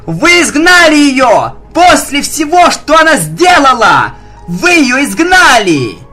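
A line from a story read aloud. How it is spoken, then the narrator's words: Wild shout. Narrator (Russian): Дико выкрикнула Твайлайт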